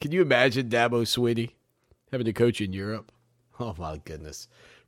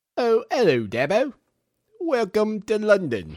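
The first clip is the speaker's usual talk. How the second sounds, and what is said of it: Put-on British accent. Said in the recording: “is that the best British accent you got”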